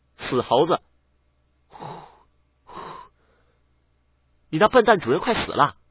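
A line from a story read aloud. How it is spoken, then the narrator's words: Loud, exasperated amusement. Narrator (Chinese): 小白又好气又好笑，大声的道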